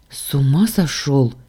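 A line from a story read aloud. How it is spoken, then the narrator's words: Choked hoarse rasp. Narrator (Russian): подавившись воздухом, прохрипела я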